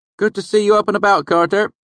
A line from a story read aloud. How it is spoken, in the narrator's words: Shep called out